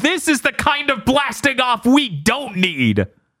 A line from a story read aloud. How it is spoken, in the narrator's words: Rocket starts running away from the disintegration, screaming